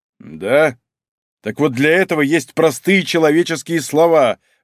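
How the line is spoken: Loud bark. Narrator (Russian): гаркнул Малинин

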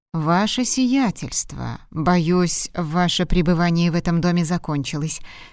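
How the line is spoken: Plain. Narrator (Russian): сказал дворецкий

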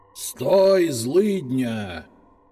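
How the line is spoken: Growled in strange voice. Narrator (Russian): Чужим голосом прорычал я

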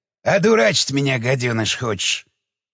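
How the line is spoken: Sullen, hostile. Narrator (Russian): набычился Илюха

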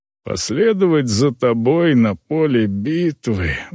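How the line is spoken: Sighing. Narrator (Russian): вздохнул он

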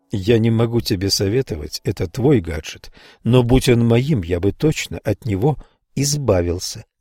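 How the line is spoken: Plain. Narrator (Russian): сказал Дон

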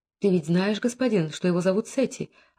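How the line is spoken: Barely audible. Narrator (Russian): ответила она чуть слышно

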